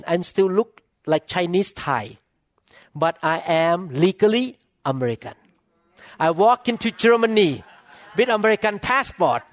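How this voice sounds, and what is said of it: Non-native accented English. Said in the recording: “my accent was wrong for that word, for two words actually... I'm still speaking with accent”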